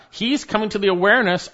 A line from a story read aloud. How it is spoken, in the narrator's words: I cried out